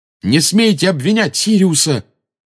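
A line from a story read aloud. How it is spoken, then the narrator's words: Fierce shout. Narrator (Russian): свирепо выкрикнул Гарри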